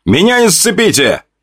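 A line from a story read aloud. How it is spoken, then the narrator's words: Shouting. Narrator (Russian): Крикнул солдатам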